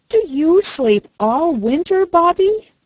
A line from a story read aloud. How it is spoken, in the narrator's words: He asked eagerly